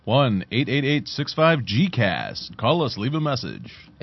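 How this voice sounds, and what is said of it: Put-on radio announcer voice. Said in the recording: “Like my radio voice. I'm working on that. I'm going to talk like this from now on.”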